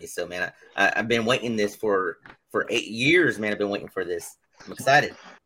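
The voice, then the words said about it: American accent. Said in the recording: “I do have an American accent”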